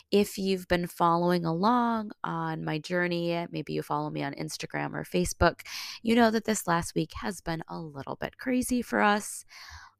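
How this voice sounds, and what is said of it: Slightly altered, sick-sounding voice. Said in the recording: “my voice might sound a little bit differently ... So I'm just getting over COVID,”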